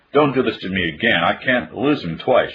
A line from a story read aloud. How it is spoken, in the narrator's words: she cried